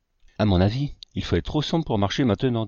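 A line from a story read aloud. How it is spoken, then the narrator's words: Plain. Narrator (French): dit Mr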